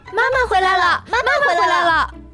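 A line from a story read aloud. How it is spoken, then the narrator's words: Little rabbits shouting together. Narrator (Chinese): 小兔子们 一起喊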